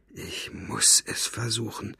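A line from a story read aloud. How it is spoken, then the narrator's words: Whispered. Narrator (German): flüsterte sie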